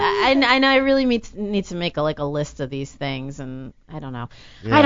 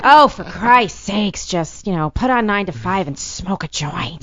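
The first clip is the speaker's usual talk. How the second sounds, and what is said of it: Lily Tomlin impression. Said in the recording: “I used to do Lily Tomlin a lot ... I used to like to do that one”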